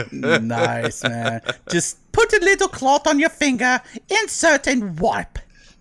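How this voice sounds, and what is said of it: Put-on old woman's English accent. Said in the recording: “Why am I doing an old woman's English accent? ... we went all Julia Child.”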